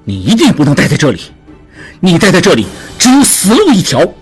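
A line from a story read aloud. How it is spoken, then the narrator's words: Angry. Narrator (Chinese): 智庸也怒了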